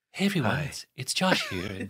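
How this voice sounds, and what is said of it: Soft public-radio DJ voice. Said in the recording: “he switches to his radio voice ... You switch to a sort of soft talk ... You get real soft on the mic ... It's his public voice ... public radio DJ”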